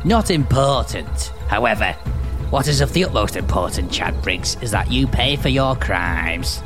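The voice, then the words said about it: Put-on Burnley accent for character. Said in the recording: “I'm starting to regret the Burnley accent, but I've got to persevere with it.”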